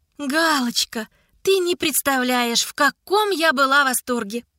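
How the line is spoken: Fake enthusiastic exclaiming. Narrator (Russian): Ненатурально восторженным голосом, как показалось Коте, восклицала Ида

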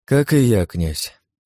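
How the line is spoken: Weary sigh, empress. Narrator (Russian): государыня устало вздохнула

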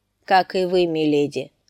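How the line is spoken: Even voice. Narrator (Russian): отвечал сир Борис ровным голосом

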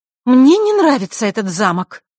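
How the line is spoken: Irritated young woman. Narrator (Russian): раздраженно сказала девушка

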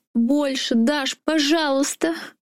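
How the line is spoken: Shouted. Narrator (Russian): закричала Саша

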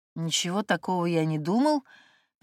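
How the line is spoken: Mumbling. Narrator (Russian): принялся мямлить Денис, ненавидя себя за невнятность речи

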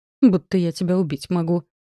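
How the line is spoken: Grumbling, panting. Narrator (Russian): проворчала, пыхтя в попытке заполучить свободу

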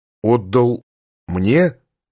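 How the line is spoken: Timid question. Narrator (Russian): робко спросил

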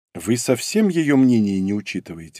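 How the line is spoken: Sighing. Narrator (Russian): вздохнул

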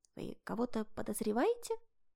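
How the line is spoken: Whispered question. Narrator (Russian): шепотом спросила Инга

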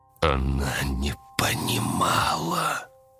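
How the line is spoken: Creaky voice from glass. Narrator (Russian): проскрипело лицо в стекле

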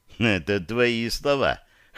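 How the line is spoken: Wry snort. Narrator (Russian): хмыкнул Дирон

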